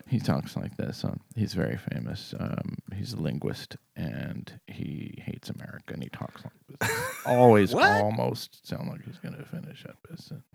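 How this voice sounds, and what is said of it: Very quiet, trailing-off voice. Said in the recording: “always talks like this and he always sounds like he's almost going to stop talking and he's almost done ... We can barely hear you, mate.”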